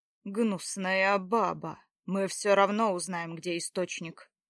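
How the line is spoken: Words through teeth. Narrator (Russian): Процедил второй

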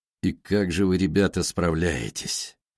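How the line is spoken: Strained, tired. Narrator (Russian): Его голос прозвучал сдавленно, устало

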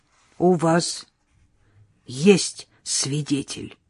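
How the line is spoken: Hoarse. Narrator (Russian): проговорил хрипло

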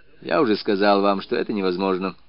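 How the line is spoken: Dry reply. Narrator (Russian): сухо отвечал следователь

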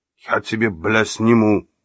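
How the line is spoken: Angry growl. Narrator (Russian): зарычал на него Мусса

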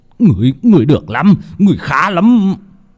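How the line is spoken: Old man's hissing shriek. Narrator (Vietnamese): lão thầy pháp kia rít lên

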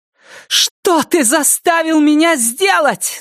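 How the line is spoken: Screaming. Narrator (Russian): закричала она

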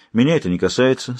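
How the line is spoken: Calm. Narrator (Russian): спокойно заметил Гонтран

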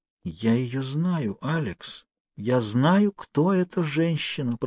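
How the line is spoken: Whispered. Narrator (Russian): прошептала Кейт

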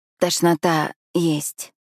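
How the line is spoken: Hoarse strained. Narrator (Russian): хрипло выдавливаю

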